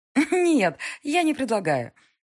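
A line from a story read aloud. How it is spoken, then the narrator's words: Laughing. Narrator (Russian): Диана засмеялась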